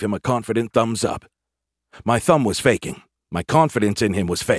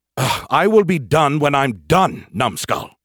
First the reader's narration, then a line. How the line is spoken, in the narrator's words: snapped